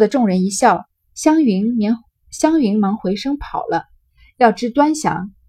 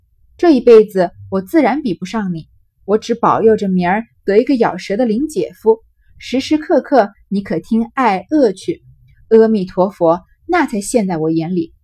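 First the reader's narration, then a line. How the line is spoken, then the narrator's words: Laughing. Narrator (Chinese): 湘云笑道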